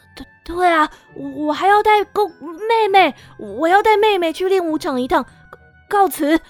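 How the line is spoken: Stammering. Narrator (Chinese): 卢娜就结结巴巴的说

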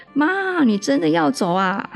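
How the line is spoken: Son shouting loudly. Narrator (Chinese): 儿子就大声一喊

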